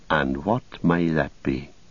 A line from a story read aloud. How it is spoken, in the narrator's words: said Frodo quietly